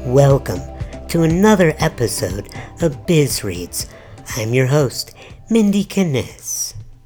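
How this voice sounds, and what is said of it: Imitates another person's voice. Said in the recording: “doing an impression of apparently how he thinks I sound doing biz reads ... So you're going to talk like this? ... if I sound as sexy as Mindy Kinnis does”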